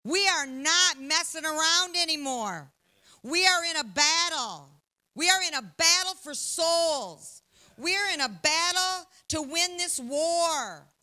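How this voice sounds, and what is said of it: Loud, forceful preaching voice. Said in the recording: “my voice is loud”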